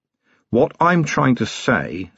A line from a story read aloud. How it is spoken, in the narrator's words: said Vimes